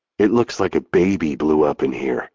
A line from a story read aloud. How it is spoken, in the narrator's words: Jake whispers